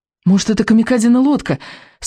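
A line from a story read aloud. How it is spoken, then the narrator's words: Hopeful exclamation. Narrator (Russian): с надеждой воскликнул Икинг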